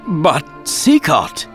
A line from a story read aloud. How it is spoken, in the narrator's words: Raoul spluttered